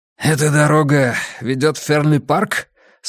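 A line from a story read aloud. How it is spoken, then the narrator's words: Hoarse question. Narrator (Russian): спросил незнакомец хриплым голосом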